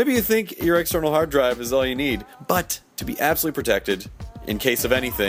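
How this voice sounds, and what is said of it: Usual voice. Nothing is said of it.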